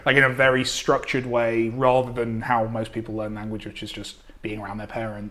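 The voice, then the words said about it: Posh received English accent. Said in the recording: “accent being slightly more received... English... I sound a lot posher than I am”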